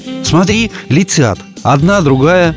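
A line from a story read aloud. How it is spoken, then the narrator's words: Exclamation. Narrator (Russian): воскликнула Мила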